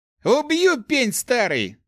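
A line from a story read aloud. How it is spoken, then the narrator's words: Yelling. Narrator (Russian): заорал он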